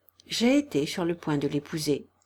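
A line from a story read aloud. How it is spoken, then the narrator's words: Murmured, head lowered. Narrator (French): murmura-t-il en baissant la tête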